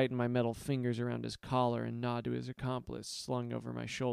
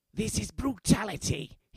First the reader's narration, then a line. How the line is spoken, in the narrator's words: hisses